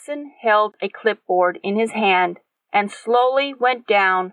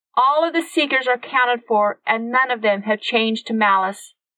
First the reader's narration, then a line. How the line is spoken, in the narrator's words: called out with her thoughts